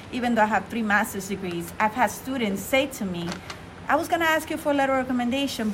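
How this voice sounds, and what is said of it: Non-native English accent. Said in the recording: “I'm always going to have an accent ... because of my accent”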